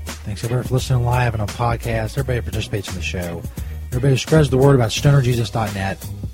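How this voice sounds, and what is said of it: Strained, failing voice. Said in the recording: “My voice is failing a little bit.”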